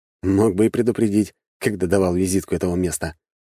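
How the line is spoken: Chilly snort. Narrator (Russian): хмыкнул я, поежившись на ветру

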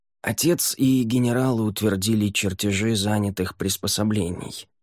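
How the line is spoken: Gentle interjection. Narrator (Russian): мягко вмешался в неловкий разговор Ель

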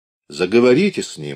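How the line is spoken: Solemn brisk baritone, doctor. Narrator (Russian): баритон доктора Краковского торжественно и бодро повторил приглашение

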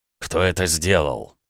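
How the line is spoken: Involuntary growling voice. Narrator (Russian): в голосе проявились рычащие звуки

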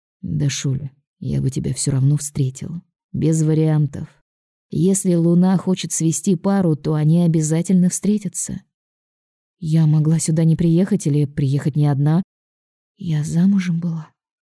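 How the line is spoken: Quiet. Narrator (Russian): говорю тихо

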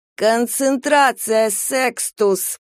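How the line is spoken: Creaky rasp. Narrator (Russian): проскрипела она

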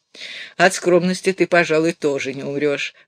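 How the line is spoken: Laughing. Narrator (Russian): Баренбойм засмеялся

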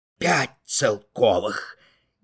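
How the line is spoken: Amazed whisper. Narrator (Russian): Изумленно прошептал Петр Васильевич

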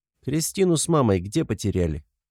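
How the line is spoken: Casual question. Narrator (Russian): Будничным тоном интересуюсь

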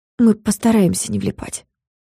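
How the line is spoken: Quiet promise. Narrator (Russian): тихо пообещала я

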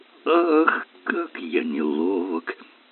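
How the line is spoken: Mumbled. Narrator (Russian): пробормотал Эллери

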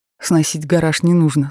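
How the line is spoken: Strained, forced out. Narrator (Russian): с трудом выдавил

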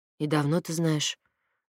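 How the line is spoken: Muffled reply. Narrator (Russian): глухо отозвался Платон

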